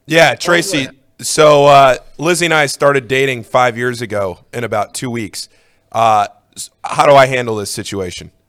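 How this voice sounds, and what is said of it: Slightly hoarse voice. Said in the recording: “I'm a little hoarse today.”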